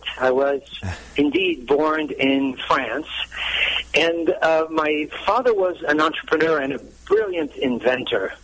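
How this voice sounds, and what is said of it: Slight French accent. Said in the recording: “you may have already detected a slight French accent”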